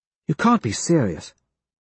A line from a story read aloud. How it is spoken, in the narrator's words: Quinn says, quietly